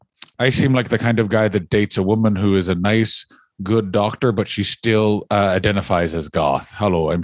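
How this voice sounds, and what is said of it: Poor imitation of another person's accent. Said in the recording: “Sheamus, of course, my shitty accent aside”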